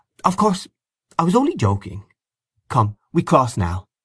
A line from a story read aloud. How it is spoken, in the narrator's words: Miss Ivors said in a soft, friendly tone